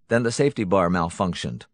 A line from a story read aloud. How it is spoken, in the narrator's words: Hunton said flatly